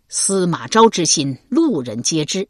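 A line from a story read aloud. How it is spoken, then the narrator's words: Loud angry shout. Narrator (Chinese): 新皇帝曹髦横眉怒眼，大声喝道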